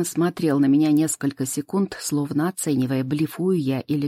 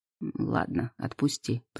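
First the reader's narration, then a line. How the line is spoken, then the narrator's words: Muttered, clinging to pride. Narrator (Russian): пробормотал он, стараясь сохранить остатки гордости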